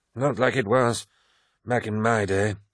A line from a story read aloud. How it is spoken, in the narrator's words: sighed Cruz